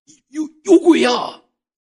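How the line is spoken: Someone shouting. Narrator (Chinese): 也不知道是谁喊了一声

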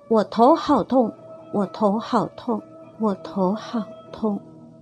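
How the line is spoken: Fading from loud to faint. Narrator (Chinese): 声音渐渐由强转弱的说着

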